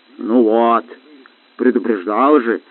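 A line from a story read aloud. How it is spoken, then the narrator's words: Grumbling house spirit. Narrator (Russian): проворчал домовой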